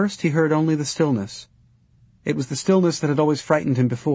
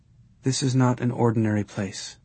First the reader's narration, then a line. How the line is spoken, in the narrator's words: she whispered